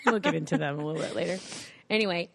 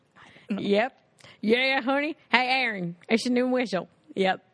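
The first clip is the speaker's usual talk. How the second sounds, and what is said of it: Imitates parents' regional accent. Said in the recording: “I love that my parents have that kind of accent. ... That's exactly how they talk. It's actually kind of how they talk.”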